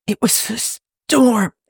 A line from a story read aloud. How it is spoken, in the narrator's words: he wheezes